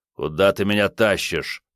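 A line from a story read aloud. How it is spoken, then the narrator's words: Grumbling. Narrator (Russian): пробурчал он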